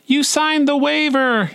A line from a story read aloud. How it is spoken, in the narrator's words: yelled